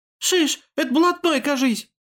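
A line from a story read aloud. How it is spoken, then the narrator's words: Squeaky little voice. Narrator (Russian): пискнул другой голосок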